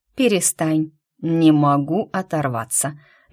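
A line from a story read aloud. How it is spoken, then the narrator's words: Guilty sigh. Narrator (Russian): виновато вздохнул он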